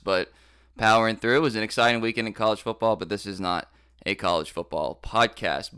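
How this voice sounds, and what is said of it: Slightly hoarse voice. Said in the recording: “forgive my voice ... So I'm a little hoarse”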